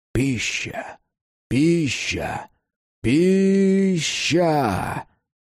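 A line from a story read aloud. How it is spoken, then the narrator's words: Hissing creatures. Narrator (Russian): Твари зашипели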